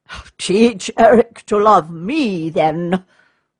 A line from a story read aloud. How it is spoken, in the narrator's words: said the knight, laughing